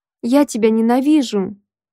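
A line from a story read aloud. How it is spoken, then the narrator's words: Sobbed. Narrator (Russian): всхлипнула я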